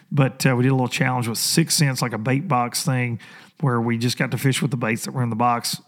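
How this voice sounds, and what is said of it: Hoarse, strained voice. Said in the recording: “excuse me, I'm losing my voice, too much talking this weekend”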